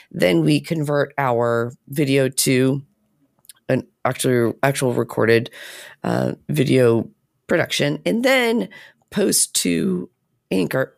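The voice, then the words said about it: Strained, hoarse voice. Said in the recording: “I'm losing my voice”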